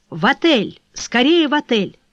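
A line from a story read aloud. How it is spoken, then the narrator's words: Shouted. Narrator (Russian): крикнула кучеру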